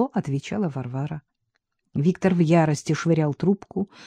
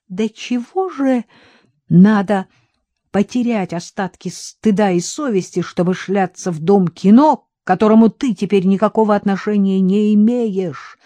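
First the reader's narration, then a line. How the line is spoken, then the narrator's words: Yelling into phone. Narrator (Russian): орал в трубку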